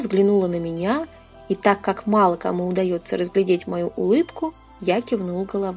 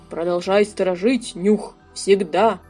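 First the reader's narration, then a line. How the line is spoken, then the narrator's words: Distant otherworldly growl. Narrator (Russian): Я почти слышал его рычание в безвременье из тех мест, что за пределами мысли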